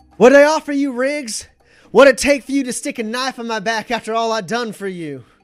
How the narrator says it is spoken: Morales yells, over to him

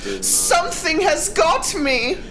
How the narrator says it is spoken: she screamed

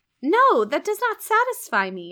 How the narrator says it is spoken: I exclaimed

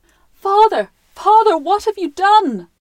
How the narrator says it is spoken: cried

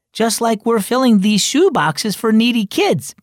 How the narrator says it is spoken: Mia exclaimed

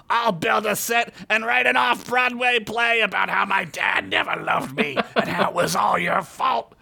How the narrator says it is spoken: Burgundy screamed

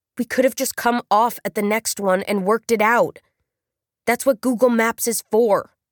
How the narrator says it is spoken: Raina said, slowing down, her voice strange and squished, like it was working its way through gritted teeth

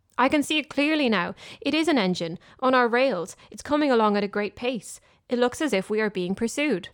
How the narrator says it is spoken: Presently he called out

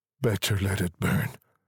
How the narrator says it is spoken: said the soldier sadly, but in a way that let them know he believed it to be true

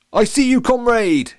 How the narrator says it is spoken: shouted the captain

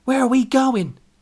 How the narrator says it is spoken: Kat yelled out

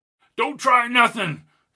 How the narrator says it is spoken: cried Albie

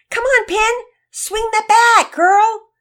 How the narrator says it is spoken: Mama Peters yelling from the stands

